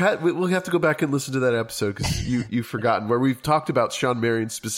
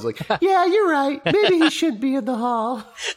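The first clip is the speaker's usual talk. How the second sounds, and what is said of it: Imitates another person's voice. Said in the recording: “stupid voice ... That was my ... impression ... You nailed it. That's so good.”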